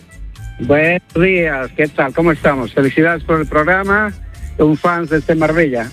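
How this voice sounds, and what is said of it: Bolivian Spanish accent, heard as Galician. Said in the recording (Spanish): “con ese acento, digo yo, me nos llama del norte. ... Soy boliviano ... parecía gallego”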